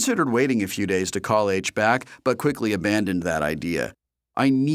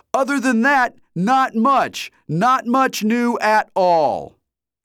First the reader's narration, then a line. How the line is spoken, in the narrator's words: He shouted